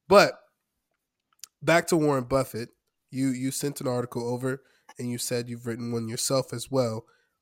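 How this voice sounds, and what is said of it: Slightly nasal, sick-sounding voice. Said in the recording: “I'm under the weather right now. My voice is a little nasally.”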